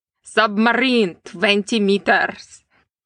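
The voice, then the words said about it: Liam Neeson's Russian accent impression. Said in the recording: “Liam Neeson's Russian accent ... Also spot on, I think.”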